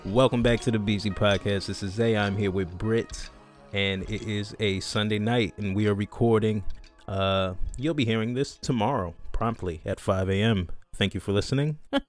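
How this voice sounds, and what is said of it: Radio announcer voice. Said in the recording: “I'll try to put my radio voice on real quick. ... How'd I do? ... Nice. Yeah, it was good.”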